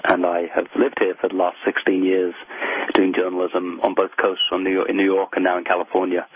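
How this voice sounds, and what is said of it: British accent. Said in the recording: “the wonderful British accent.”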